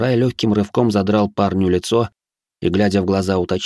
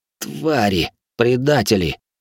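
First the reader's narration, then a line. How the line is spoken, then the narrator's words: Hoarse rasp after swallowing. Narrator (Russian): тяжело сглотнув, прохрипел пленный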